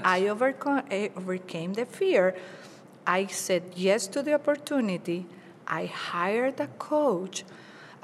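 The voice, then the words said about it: Non-native English accent. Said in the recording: “I know I have an accent. I'm very proud of my accent because I learned English at the age of 30th when I moved to the United States.”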